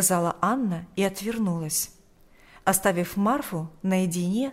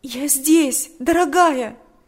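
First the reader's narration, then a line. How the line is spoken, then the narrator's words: Tearful exclamation. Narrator (Russian): воскликнула сквозь слезы Татьяна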